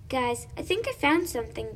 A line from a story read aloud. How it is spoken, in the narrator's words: Brody exclaimed